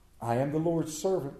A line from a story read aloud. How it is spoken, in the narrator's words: Mary answered